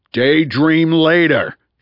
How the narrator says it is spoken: he roared

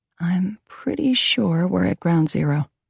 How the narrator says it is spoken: Carrie announced softly

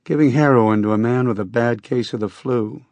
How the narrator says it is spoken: he said and chuckled

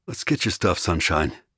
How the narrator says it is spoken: Ari said calmly

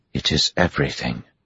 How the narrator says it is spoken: Chiad said softly

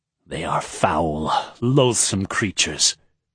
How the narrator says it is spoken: Dilov hissed

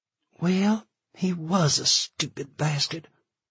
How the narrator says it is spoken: she whispered, barely keeping her eyes open

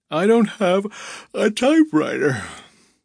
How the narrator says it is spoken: Byron said with a yawn

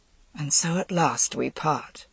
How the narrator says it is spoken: he said softly

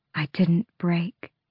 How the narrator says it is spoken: she said quietly

